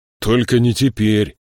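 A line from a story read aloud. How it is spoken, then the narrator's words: Growling. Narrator (Russian): прорычал Ленти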